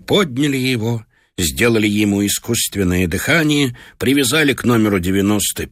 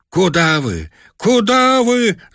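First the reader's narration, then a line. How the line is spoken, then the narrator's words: Shouting, group. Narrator (Russian): закричали мы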